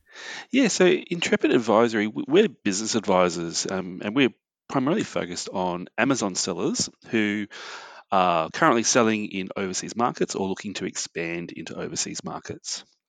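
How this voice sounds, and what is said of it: Australian accent. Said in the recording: “I can tell from your accent that you're Australian”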